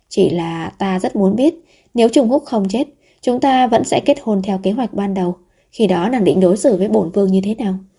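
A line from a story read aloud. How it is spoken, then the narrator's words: Sighing. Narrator (Vietnamese): Vũ Thị An thở dài một tiếng rồi nói tiếp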